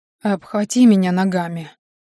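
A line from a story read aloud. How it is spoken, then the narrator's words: Whispered order. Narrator (Russian): приказал шепотом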